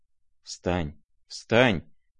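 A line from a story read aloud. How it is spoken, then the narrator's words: Frightened whisper. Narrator (Russian): говорил он испуганным шепотом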